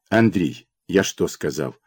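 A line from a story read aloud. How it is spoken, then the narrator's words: Stern father. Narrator (Russian): Строго проговорил отец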